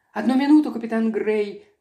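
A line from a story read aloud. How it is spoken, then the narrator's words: Desperate pleading. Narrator (Russian): в отчаянии взмолилась леди Уэнсли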